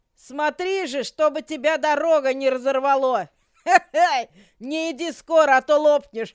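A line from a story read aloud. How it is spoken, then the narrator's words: Laughing. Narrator (Russian): Так засмеялась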